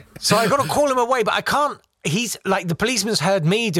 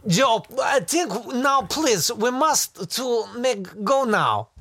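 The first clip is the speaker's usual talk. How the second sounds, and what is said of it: Put-on Eastern Bloc accent. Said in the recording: “a hilarious Eastern Bloc accent”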